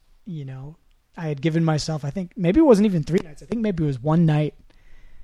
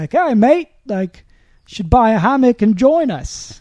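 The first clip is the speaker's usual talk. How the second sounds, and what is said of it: Attempted British accent, sounds Australian. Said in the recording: “Australian. ... It's my attempt at a British accent. ... Okay, that was British accent.”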